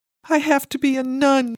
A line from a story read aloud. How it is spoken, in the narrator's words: cried